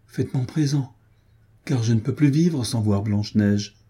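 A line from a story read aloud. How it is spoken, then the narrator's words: Pleading. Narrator (French): reprit-il d'un ton suppliant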